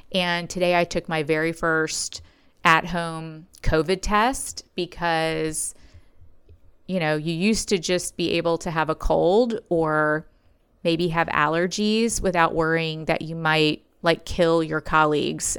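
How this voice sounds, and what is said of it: Scratchy, slightly hoarse voice. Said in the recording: “you might notice that my voice is a little scratchy. I feel under the weather.”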